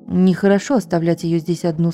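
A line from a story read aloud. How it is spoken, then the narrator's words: Plain. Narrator (Russian): сказал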